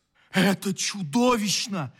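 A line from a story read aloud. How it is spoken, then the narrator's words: Exclaiming. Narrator (Russian): воскликнул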